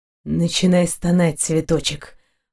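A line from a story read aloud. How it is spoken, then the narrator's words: Barely audible. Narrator (Russian): повторил он еле слышно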